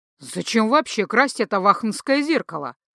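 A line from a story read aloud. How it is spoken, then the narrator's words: Fierce growl, mouth full. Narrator (Russian): рыкнул Гархаэт, со стервенением откусывая половину Адела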